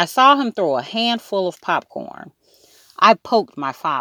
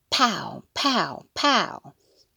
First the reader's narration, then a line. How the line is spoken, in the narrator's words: I heard Fudge whisper